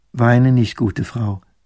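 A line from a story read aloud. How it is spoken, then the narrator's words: Plain young woman. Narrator (German): sagt das Fräulein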